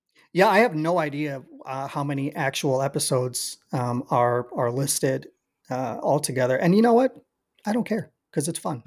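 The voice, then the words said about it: Slightly raspy voice. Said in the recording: “my voice is already a little raspy. ... I've been talking too damn much”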